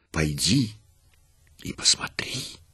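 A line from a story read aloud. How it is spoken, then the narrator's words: Angels whispering in ear. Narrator (Russian): легионы ангелов, пролетая мимо, шептали ей на ух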